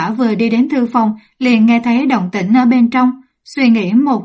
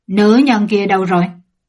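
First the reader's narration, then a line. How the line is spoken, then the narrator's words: Angry question. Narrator (Vietnamese): Mộ Dung Lệ giận dữ hỏi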